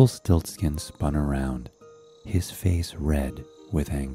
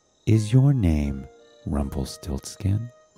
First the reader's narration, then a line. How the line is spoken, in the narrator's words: asked